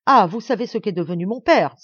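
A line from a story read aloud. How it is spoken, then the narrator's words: Exclaimed. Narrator (French): s'écria-t-il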